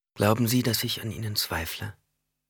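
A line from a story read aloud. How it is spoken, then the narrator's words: Gentle question. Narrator (German): fragte Jessica mit sanfter Stimme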